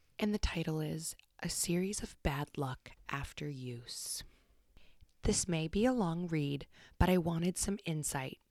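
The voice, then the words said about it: Soft ASMR-style storytelling voice. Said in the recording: “ASMR voice for this and not my usual bull in a china shop voice”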